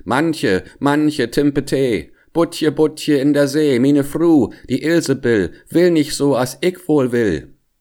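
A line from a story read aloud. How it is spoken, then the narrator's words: Calling out. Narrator (German): er ... rief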